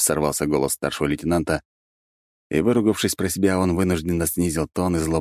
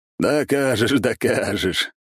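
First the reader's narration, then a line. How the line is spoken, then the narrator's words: Encouraging, suppressed laughter. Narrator (Russian): едва сдерживая смех, ободряюще хмыкнул майор Горемыка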